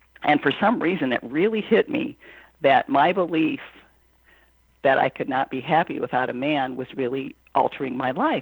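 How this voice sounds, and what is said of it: Scratchy, hoarse voice. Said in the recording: “my voice is kind of scratchy today.”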